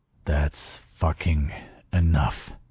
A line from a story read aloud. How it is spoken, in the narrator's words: muttered in a slurred tone